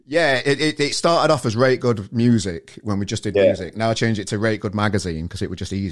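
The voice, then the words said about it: Yorkshire accent. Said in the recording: “that's the Yorkshire twang coming through”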